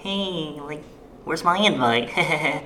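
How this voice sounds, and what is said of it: Mocking voice of a needy person. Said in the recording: “Why do you talk like that? ... He's imitating someone who would talk. ... Who would ask those questions.”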